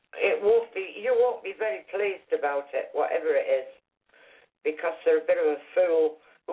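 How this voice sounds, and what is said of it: Strong accent, hard to understand. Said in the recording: “I love your accent, but it's a little hard to understand.”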